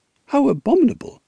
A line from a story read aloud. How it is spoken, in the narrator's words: she exclaimed